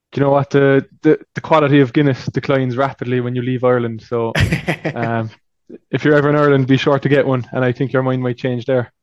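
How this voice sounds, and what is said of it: Irish Cork accent, fast speech. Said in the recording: “I'm glad that you have an accent... this guy's from Irish... I'm from Cork, which is down south. So we have a habit of talking really fast.”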